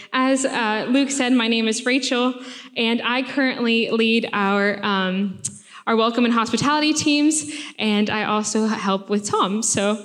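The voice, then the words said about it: American accent. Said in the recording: “if you can't tell from my accent, I am from America.”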